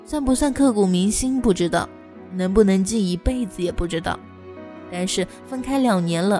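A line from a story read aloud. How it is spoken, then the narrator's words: Long sigh. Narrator (Chinese): 杨哥长叹一口气说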